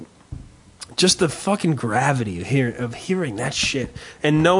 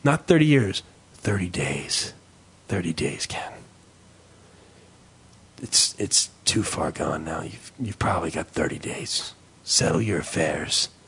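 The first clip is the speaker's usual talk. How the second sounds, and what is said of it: Gravelly put-on doctor voice. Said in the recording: “you can tell by my gravelly voice ... I don't know why I'm doing that voice”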